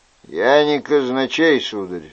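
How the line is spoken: Dry, curt. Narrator (Russian): сухо ответил Люаньяк

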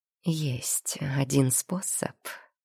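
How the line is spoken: Quiet reply. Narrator (Russian): так же тихо отвечает Егор

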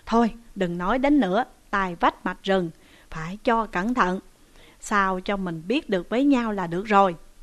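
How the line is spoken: Smiling. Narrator (Vietnamese): Ngô Dụng mỉm cười mà rằng

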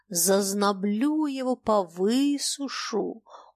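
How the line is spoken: Confident, menacing, strong. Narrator (Russian): уверенно и грозно обещала Саша, бросая в воздух крепкие сильные звуки

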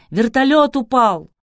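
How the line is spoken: Shouting while moving. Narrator (Russian): Один из них на ходу крикнул

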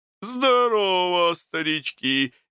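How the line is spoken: Cheerful shout. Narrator (Russian): весело крикнул Тит с зарода

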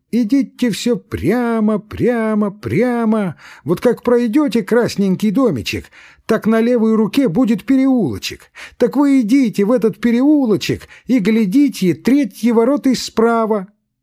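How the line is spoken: Shrill thin shout. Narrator (Russian): Торговка стала кричать пронзительным тонким голосом

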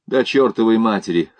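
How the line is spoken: Amused snort. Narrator (Russian): хмыкнул один

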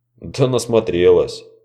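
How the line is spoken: Snorting, dry. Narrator (Russian): хмыкнула смерть

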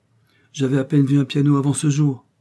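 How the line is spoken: Cheerful reply. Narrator (French): répondit gaiement Florence

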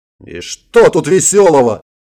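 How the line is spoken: Yelled. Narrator (Russian): заорал Брайан

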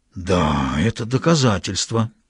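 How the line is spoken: Relieved sigh. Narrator (Russian): вздохнул с некоторым облегчением Граляр

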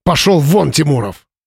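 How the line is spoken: Barked. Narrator (Russian): рявкнул Павел

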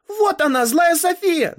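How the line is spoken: Shouting. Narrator (Russian): закричала Ава

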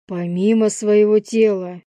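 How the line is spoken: Stern repetition. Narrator (Russian): грозно повторил я

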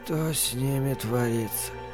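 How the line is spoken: Asked in unhappy voice. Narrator (Russian): несчастным голосом спросил Норман

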